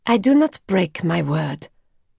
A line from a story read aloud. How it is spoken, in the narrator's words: said Simone coldly